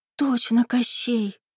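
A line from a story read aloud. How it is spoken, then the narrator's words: Admiring whisper. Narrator (Russian): восхищенно прошептала Даринка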